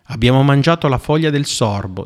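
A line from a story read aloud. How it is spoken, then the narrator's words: Plain. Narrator (Italian): disse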